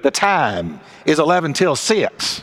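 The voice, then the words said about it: Strong Texas accent. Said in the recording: “a voice said in a very Texas accent”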